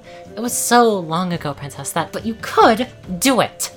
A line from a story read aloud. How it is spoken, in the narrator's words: Twilight growled through gritted teeth